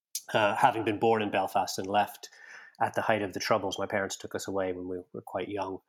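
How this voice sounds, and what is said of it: Canadian-tinged Northern Irish accent. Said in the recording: “I suppose you can tell from my accent, I spent a long time in Canada.”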